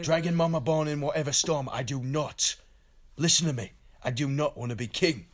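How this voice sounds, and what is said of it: Impression of Jon Snow. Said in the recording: “your impersonation of Jon Snow is getting better”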